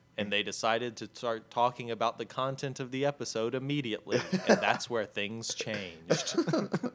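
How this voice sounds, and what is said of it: Good impression of the Watcher. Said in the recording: “You should have auditioned for the watcher. That was a very good impression.”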